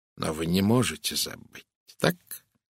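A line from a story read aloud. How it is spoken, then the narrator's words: Soft. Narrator (Russian): мягко произнес Пуаро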